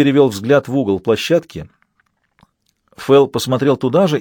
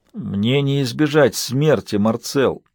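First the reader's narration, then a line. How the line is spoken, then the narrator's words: Pained mutter. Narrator (Russian): пробормотал Мейсон с перекошенным болью лицом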